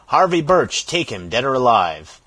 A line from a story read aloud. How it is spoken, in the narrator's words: the stentorian voice of Lawton rang through the valley, shouting